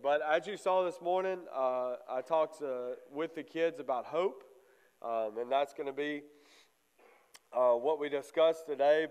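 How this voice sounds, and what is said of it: Slightly congested, stuffy voice. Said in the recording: “I'm a little bit congested. I'm blaming the lake water”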